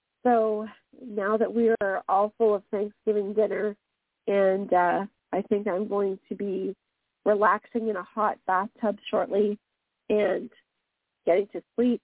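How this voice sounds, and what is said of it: Slightly congested, sick-sounding voice. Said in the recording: “As you can hear, I have a little bit of a cold”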